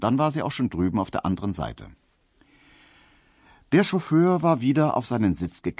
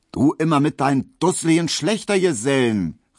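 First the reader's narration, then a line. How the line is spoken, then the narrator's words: Calling out. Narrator (German): rief sie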